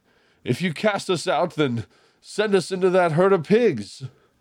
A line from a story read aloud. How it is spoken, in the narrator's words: the demons begged